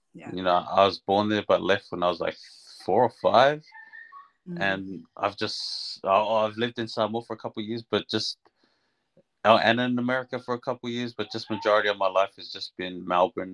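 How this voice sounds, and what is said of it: Slight New Zealand accent. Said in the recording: “You've got a little bit of a Kiwi accent though.”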